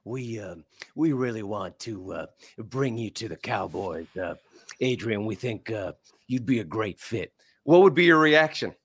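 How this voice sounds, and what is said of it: Imitates another person's voice. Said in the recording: “that Jerry Jones impression, we love it. It's too good.”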